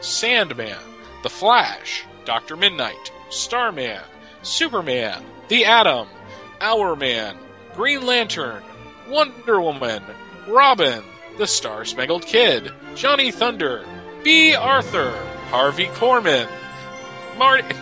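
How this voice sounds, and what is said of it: Seventies TV special announcer voice. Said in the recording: “I was lapsing into seventies uh, seventies intro special announcer voice”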